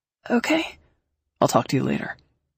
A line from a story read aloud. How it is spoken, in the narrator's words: Confused, I murmured